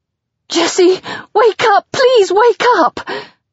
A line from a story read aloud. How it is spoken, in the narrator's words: I plead, giving into hysteria